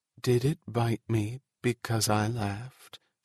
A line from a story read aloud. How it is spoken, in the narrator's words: She said in a quiet voice